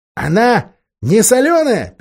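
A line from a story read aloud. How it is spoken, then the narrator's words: Squeaking. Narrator (Russian): пищал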